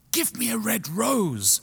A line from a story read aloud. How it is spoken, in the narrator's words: she cried